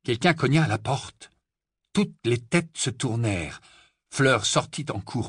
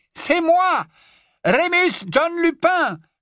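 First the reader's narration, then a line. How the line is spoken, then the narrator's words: Shouted over howling wind. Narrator (French): lança une voix qui dominait le hurlement du vent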